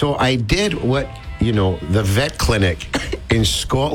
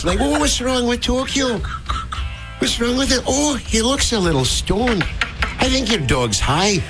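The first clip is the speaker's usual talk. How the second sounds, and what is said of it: Put-on Scottish accent. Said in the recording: “I can do your Scottish accent really good”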